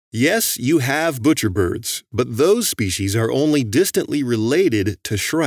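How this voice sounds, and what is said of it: Usual voice. Nothing is said of it.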